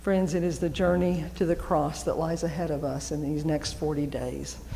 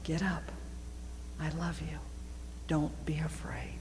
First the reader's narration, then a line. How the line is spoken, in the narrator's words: whisper in your ear